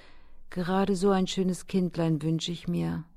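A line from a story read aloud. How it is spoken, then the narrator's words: Empress sighing wistfully. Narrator (German): seufzte die Kaiserin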